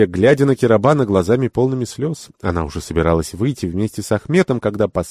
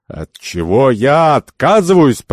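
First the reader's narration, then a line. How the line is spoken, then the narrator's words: Thunderous roar. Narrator (Russian): прогремел негоциант с такой силой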